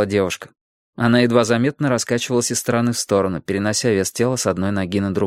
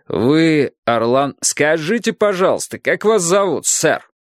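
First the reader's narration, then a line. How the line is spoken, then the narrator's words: Loud question. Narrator (Russian): громко спросил полицейский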